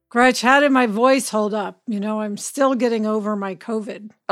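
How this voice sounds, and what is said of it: Slightly froggy, tired voice. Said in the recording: “I could tell that you're a little bit froggy... Is it tired?... A little bit tired, but much, much better.”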